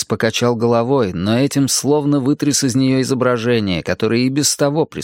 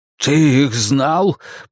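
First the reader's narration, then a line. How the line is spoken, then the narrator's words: Hoarse rasp. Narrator (Russian): прохрипел он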